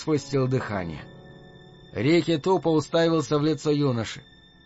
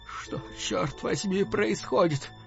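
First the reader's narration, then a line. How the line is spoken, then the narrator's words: Boy's weakening voice. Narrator (Russian): Мальчишка спросил слабеющим голосом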